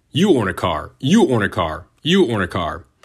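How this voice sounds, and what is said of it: Imitates another person's voice. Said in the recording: “that's my best Oprah impression”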